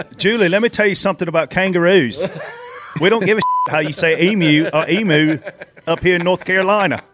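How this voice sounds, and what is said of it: Put-on Australian accent. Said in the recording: “That's the best Australian accent anybody from Pageland has ever given.”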